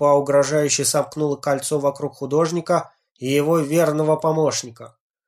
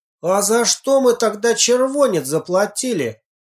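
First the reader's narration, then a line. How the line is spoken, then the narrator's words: Shouted. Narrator (Russian): выкрикнул Петухов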